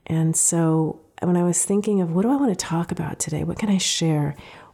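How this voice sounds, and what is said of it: Congested, off-sounding voice. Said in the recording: “my voice is off today. I'm recovering from an illness ... head cold, and you can hear it”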